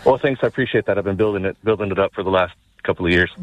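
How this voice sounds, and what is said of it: Strong Irish County Offaly accent. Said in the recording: “You've got the strongest County Offaly accent I've ever heard in my life.”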